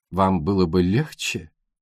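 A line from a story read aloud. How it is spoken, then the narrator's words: Very soft, almost tender. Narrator (Russian): Пуаро говорил очень мягко, почти нежно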